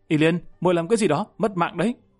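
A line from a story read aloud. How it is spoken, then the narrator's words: Slightly angry. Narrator (Vietnamese): Lâm Văn Vinh có chút tức giận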